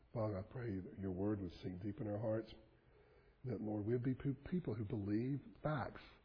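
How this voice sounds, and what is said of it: Hoarse, strained voice. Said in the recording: “Now that I've lost my voice”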